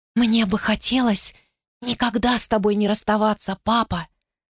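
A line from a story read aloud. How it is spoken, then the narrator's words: Whisper. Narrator (Russian): прошептала она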